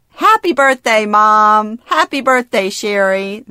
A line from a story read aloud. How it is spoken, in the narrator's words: say cheerfully